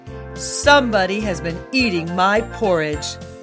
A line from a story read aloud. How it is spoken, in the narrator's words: In his great big voice, he growled